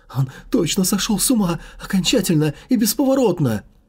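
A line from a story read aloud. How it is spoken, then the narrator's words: Kidnapper's inner near-sobbing. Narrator (Russian): Едва не рыдал про себя похититель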